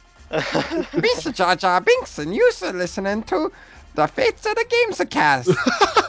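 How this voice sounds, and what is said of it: Good Jar Jar Binks impression. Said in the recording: “That's a really fucking good impression. ... That is a really good impression.”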